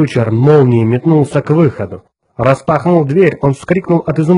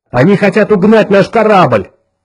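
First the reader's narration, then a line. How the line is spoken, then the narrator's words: Shout. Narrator (Russian): крикнул капитан Фьючер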